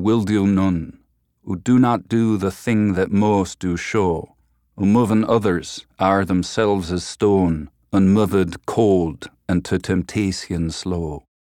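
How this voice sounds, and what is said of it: Old English accent, hard R's. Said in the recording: “It was very R-full, really hard R's, kind of, you know, almost a little bit piratical. And it was very fluid and efficient. They left out a lot of sounds.”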